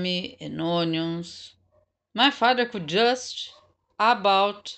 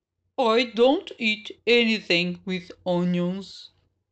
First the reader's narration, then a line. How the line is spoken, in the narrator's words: Daniel said